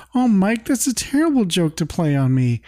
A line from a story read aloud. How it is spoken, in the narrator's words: Carol awkwardly giggles and says